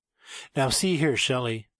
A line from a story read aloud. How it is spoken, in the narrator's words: she exclaimed